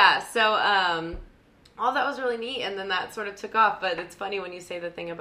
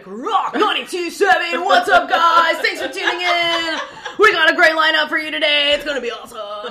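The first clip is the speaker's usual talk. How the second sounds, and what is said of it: Cliché upbeat radio DJ voice. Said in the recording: “a very good impression ... of a cliche ... Radio ... voice”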